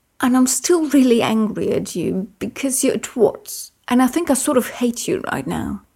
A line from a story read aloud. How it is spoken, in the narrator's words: Merlin continued shakily